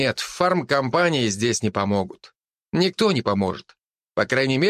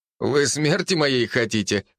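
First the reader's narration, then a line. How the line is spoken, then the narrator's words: Laughing. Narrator (Russian): рассмеялся я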